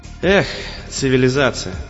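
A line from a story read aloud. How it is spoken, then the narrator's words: Mocking sigh. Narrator (Russian): насмешливо вздохнул он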